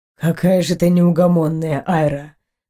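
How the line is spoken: Sigh. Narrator (Russian): вздохнул Эйнар

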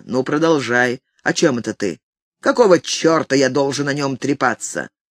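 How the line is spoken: Rough. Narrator (Russian): Он сказал грубо

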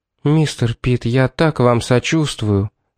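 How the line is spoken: Gentle, affectionate. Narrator (Russian): сказала она ласково

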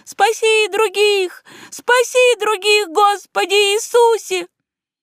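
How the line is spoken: Thin ringing distant girl's voice. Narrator (Russian): Тонкий голосок девочки, легкий и звонкий, как флейта, покрывал общие рыдания, повторяя где-то вдали

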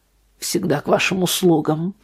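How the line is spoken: Grumble. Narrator (Russian): пробурчал Арт

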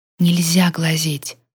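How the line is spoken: Whispered. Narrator (Russian): шепнула

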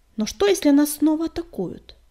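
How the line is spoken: Irritated question. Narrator (Russian): раздраженно спросила синяя звезда

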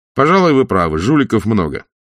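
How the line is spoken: Cheerful. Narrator (Russian): Весело мой милый революционер сказал

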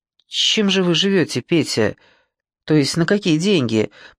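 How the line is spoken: Nearly normal voice question. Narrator (Russian): почти нормальным голосом спросил Оди

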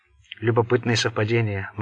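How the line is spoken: Grim declaration. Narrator (Russian): мрачно заявил Болон

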